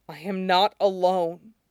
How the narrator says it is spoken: Alistair murmurs, his voice unsteady

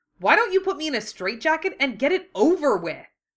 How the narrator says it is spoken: The shout

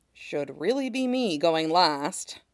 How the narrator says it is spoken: Kutsi murmurs

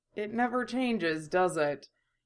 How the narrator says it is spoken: a mutter of

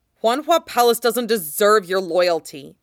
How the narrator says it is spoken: Bing He snaps

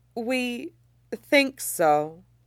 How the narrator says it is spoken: Luo Jiahui says slowly

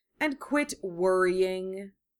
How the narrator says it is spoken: he drawled

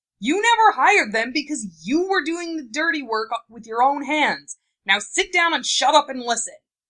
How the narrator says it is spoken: Tsunade's more piercing shout

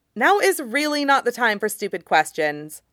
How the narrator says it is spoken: Nadia snaps

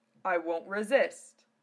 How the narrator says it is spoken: he chuckled back

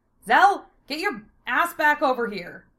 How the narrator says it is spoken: Lena yelled above the din

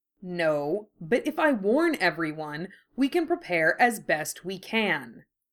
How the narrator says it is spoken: Harry said, his voice hard

